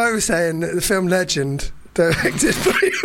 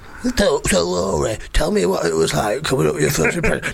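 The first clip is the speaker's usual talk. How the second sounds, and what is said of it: Imitates another person's voice. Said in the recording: “that was an impression of Michael Parkinson”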